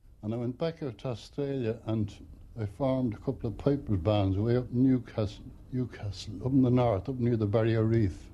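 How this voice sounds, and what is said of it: Australian accent. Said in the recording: “as you may have guessed from his accent, came here from Down Under”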